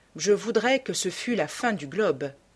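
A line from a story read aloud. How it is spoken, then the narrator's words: Sighing. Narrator (French): dit Dorian avec un soupir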